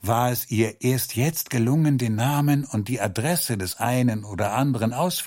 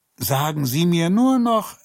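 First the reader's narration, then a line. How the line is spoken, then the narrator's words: Calling after. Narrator (German): rief er ihr hinterher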